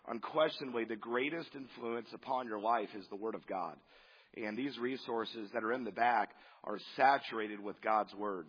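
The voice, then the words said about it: Hoarse, strained voice. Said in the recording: “as you can hear, I lost my voice. ... it kind of gets a little strained”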